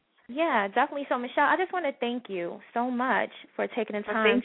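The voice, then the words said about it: New York accent. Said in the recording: “your New York accent... I just love the accent... she's got the New York voice”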